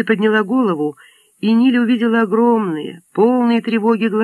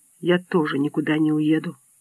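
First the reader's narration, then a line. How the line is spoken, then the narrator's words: Whisper. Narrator (Russian): прошептала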